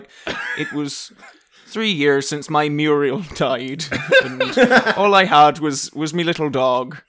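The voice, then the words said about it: Attempted Scottish accent, comes out Irish. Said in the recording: “I felt like I should be doing like some kind of Scottish ... Oh, that's Irish. I keep doing Irish. I can't do a Scottish accent. ... Are you trying to do a Scottish accent there?”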